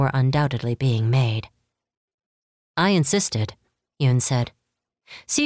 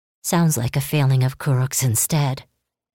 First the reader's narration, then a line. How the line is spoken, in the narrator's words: Kiyoshi muttered